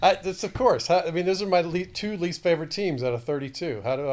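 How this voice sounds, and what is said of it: Usual voice. Nothing is said of it.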